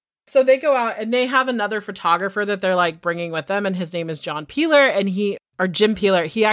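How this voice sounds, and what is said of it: Usual voice. Nothing is said of it.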